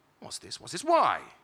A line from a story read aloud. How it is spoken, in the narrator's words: exclaimed